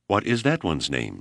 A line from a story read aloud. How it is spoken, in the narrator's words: asked